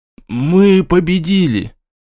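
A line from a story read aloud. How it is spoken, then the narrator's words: Hollow, muffled voice. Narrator (Russian): глухо произнес он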